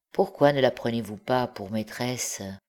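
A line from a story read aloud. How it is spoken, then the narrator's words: Low voice. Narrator (French): il ajouta à voix basse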